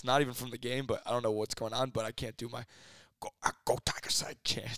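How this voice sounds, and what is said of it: Hoarse, strained voice. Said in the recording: “my voice is a little hoarse ... your voice is gone ... we're losing it”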